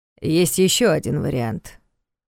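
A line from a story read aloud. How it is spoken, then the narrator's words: Gloomy remark after pause. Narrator (Russian): мрачно заметил Карпатский после недолгого молчания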